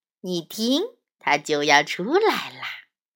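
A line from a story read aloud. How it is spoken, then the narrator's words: Smiling, gentle. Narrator (Chinese): 鸡妈妈微笑着说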